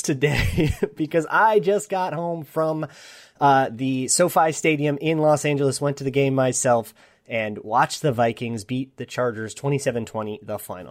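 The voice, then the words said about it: Slightly hoarse voice. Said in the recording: “my voice sounds a little bit hoarse”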